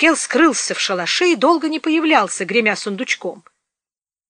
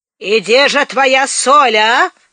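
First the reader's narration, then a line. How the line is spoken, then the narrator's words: Barked. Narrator (Russian): рявкнул Маркел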